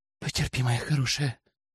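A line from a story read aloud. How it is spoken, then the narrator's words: Convulsive whisper. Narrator (Russian): судорожно шептали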